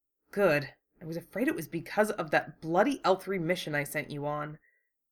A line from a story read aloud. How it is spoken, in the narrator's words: they heard Un mutter